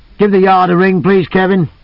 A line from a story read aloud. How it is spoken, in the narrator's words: Cole called out